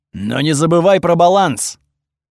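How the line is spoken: Deafeningly loud. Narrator (Russian): Получилось очень громко, настолько оглушительно

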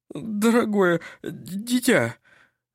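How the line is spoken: Stammering. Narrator (Russian): заикаясь, произнес он

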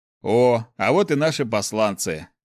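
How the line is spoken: Snorting. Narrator (Russian): хмыкнул Снег

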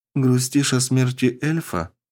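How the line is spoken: Gentle question. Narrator (Russian): мягко спросила она

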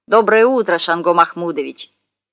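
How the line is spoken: Shout. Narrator (Russian): крикнул

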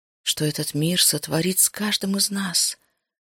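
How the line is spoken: Quiet inner whisper. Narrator (Russian): шепнул тихий голос в глубине сознания

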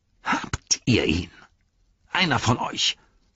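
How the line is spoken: Hissed. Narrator (German): fauchte er

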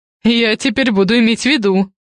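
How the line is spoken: Chuckling. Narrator (Russian): хохотнул я

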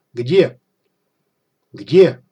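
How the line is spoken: Officer barking furiously, spitting. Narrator (Russian): офицер рявкнул, брызжа слюной

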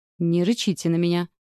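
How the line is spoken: Snorting. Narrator (Russian): фыркнула

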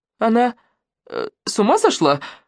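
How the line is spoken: Timid question. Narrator (Russian): робко спросила Катя

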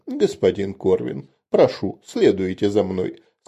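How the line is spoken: Fairly calm. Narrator (Russian): сказал он довольно спокойным тоном

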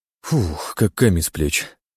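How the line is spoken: Relieved exhale. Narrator (Russian): выдохнул Сеченов

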